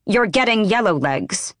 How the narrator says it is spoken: Manon snapped

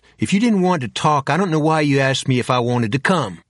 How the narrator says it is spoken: She snapped

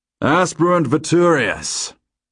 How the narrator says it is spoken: Grandfather booms

